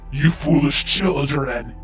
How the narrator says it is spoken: snarled

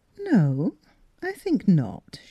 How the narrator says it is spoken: she said calmly

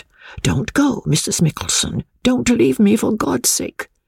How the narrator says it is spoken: Lady Glyde whispered

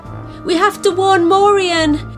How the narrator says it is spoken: cried Mia

